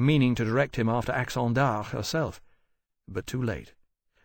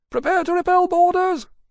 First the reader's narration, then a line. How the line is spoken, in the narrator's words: shouted from behind him